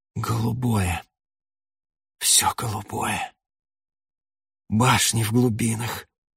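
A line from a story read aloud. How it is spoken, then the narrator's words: Hissing whisper. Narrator (Russian): сказал свистящим шепотом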